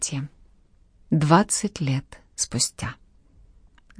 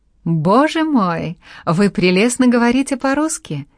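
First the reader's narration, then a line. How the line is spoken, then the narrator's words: Laughing speech. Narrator (Russian): смеясь сказала Мари Казалет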